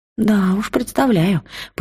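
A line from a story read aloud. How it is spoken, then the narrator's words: Understanding sigh. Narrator (Russian): понимающе вздохнула Велька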